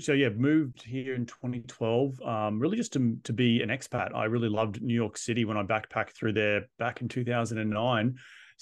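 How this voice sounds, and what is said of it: Australian accent. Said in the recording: “quit his job in Australia. You may have noticed the accent”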